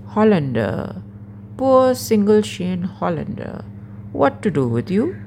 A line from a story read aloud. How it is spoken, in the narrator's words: teases